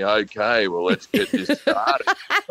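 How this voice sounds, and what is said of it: Chris Hemsworth voice impression. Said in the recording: “Do the Chris Hemsworth voice.”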